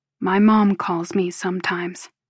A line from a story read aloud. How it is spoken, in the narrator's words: he says, his voice low and pained